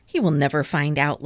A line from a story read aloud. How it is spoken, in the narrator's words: laughed the Cat in the Hat